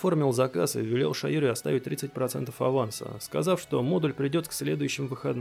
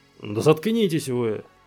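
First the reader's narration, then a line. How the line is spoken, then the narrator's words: Barked angrily. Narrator (Russian): рявкнул на них мастер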